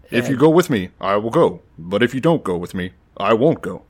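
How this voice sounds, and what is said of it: Imitates another person's voice. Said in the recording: “I do a pretty good Obama impersonation. ... Yeah, you got it.”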